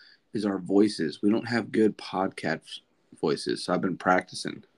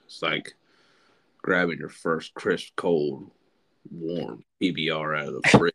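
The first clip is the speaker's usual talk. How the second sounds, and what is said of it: Imitates another person's voice. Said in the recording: “imitates Matt McConaughey ... you want to sound like a man ... Matt can talk like this all the time”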